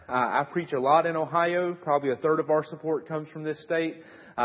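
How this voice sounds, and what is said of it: Southern US accent. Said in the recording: “if you haven't figured out by my accent, yes, that is part of the South ... if you have a hard time understanding me ... they tell me I have a bad Southern accent”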